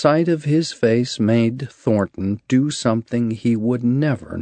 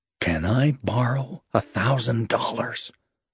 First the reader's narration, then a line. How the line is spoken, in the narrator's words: Thornton asked him, almost in a whisper